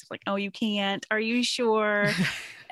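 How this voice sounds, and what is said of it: Mocking mean girl voice. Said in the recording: “I hear it in the mean girl voice.”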